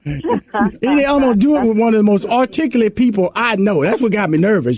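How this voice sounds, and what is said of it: Southern Houston, Texas accent. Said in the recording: “my old country Houston, Texas accent.”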